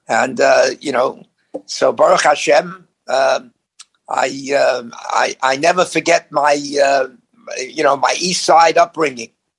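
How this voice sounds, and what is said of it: Authentic New York accent. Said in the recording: “accent or certain things that I say sounds like this guy comes from New York ... You got a fantastic, authentic accent.”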